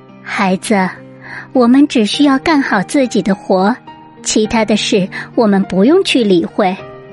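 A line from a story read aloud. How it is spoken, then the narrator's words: Gentle mother. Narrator (Chinese): 驴妈妈温柔的对他说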